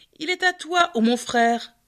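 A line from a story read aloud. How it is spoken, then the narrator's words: Sneering snicker. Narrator (French): ricana Seth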